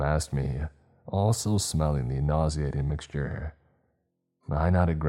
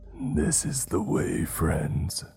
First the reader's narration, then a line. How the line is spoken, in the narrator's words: it said to us in a guttural, cracking voice